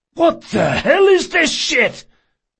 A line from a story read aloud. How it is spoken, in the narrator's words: he gasped